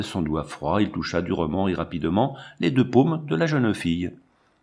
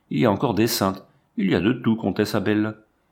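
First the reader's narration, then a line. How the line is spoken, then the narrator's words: Imperious voice. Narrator (French): maintint-il d'une voix impérieuse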